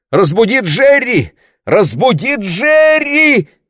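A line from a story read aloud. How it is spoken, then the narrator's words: Shouting. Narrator (Russian): кричала она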